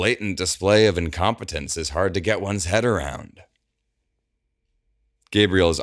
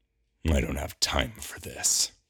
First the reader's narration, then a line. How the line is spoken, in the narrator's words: Gabriel growls under his breath